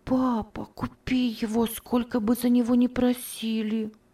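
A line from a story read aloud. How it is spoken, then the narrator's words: Quiet whisper. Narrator (Russian): тихо шептала Ева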